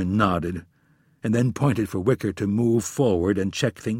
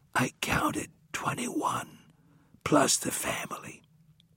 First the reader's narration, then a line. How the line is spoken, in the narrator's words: Wicker leaned over and whispered in his ear